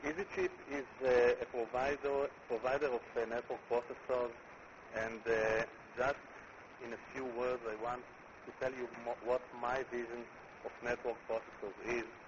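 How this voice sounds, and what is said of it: Israeli accent. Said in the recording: “my Israeli accent”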